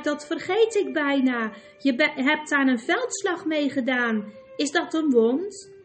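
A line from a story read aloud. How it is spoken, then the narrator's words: Exclaiming. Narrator (Dutch): riep ze uit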